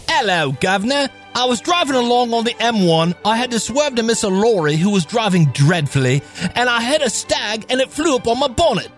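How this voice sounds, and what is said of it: Exaggerated put-on English accent. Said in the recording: “activating bad English accent mode”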